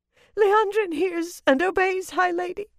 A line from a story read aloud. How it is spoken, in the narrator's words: the Dacovale whimpered